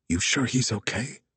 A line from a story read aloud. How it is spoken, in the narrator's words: Wags whispered